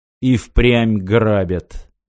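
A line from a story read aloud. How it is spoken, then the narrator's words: Gloomy voice from doorway. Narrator (Russian): мрачно донеслось от двери во внутренние помещения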